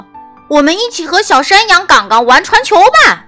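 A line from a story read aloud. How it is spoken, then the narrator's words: Shouting. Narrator (Chinese): 碧斯大喊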